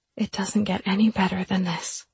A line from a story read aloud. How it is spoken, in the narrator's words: Bursting with happiness, I whispered to my men